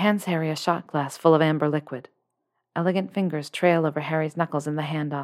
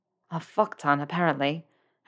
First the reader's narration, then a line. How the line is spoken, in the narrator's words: Harry manages to croak